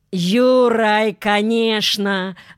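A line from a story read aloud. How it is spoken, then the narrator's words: Yelling. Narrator (Russian): заорал Костя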